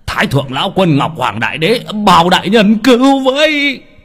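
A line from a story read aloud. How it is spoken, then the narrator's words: Man crying out. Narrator (Vietnamese): Ông la lên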